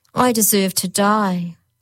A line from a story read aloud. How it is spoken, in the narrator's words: moaned a third